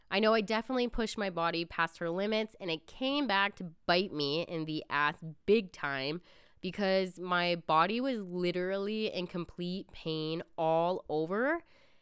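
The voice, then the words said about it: Slightly off voice with a cold. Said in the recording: “I still have a bit of a cold, and my voice may sound a little off”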